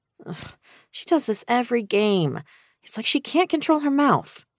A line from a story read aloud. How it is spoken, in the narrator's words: I groaned